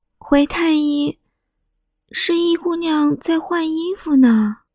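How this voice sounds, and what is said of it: Quiet, hushed reply. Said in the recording (Chinese): “小声的回着，就怕太医怪罪了自己”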